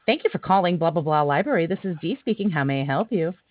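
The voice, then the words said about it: Polite customer service phone voice. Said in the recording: “my customer service voice”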